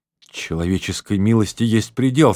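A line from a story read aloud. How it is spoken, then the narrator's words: Trembling voice. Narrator (Russian): сказала дрожащим голосом леди Аутрем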